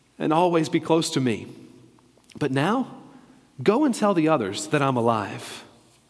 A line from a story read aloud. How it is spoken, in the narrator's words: Jesus said gently